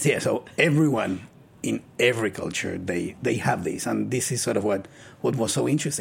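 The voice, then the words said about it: Smooth Spanish-sounding accent. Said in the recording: “It's my accent. ... You do have like a very... Like you could narrate romance novels in your free time. ... You have like an Antonio Banderas, like ... Vibe.”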